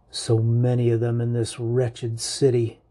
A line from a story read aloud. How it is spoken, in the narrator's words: mutters